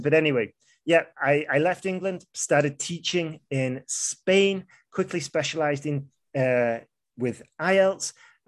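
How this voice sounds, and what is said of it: Mild northern English accent. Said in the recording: “I'm from the north of England. That's why some of my words will be pronounced slightly differently from what you're accustomed to ... now I've got a pretty standardized accent”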